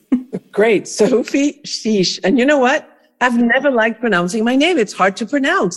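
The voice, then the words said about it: French-accented English. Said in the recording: “she's French. She has this delicious French accent.”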